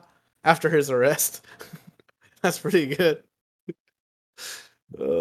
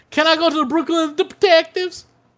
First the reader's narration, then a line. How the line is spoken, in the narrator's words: he pleaded